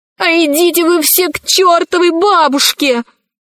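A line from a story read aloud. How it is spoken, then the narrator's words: Shouting. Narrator (Russian): закричала Кора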